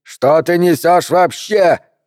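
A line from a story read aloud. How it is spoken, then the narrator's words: Shouting. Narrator (Russian): заорал мистер Моран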